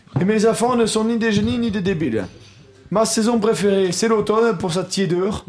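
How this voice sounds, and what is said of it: Put-on Corsican accent. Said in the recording (French): “Pourquoi tu prends l'accent ? ... Il est corse.”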